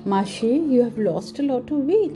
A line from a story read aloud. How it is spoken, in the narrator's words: exclaimed